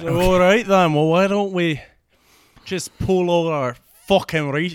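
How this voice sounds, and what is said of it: Put-on Scottish accent. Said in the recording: “He's gonna be Scottish because that's the best British accent I can do.”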